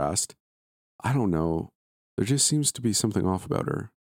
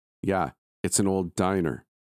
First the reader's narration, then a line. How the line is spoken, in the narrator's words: Amanda said firmly